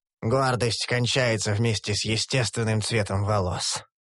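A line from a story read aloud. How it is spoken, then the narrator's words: Sighing. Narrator (Russian): вздохнул Куранша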